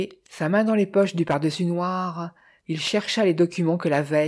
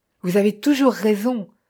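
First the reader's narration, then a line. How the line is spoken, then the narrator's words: Exasperated shout. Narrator (French): cria Jim, exaspéré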